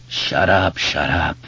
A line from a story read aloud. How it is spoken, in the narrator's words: Henry groaned